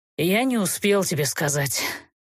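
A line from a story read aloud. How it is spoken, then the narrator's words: Hopeless sigh. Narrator (Russian): безнадежно вздохнул Герт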